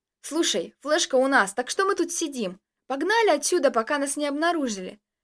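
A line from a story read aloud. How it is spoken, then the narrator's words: Panicky exclamation. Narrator (Russian): Начиная паниковать, воскликнул я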